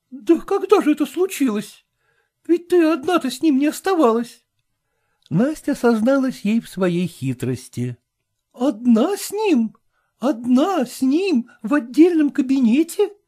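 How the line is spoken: Exclaiming. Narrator (Russian): воскликнула Даша

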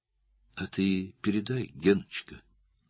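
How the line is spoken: Affectionate. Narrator (Russian): ласково сказала Кира

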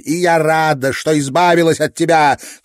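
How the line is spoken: Shout after someone. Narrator (Russian): крикнула Кристина вслед помещику

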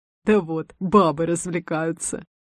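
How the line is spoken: Man's scoffing snort. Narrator (Russian): Хмыкнул кто-то из мужиков

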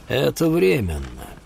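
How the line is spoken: Gloomy. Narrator (Russian): сказал Олки мрачно

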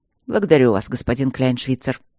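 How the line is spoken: Cold. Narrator (Russian): холодно сказал Майло

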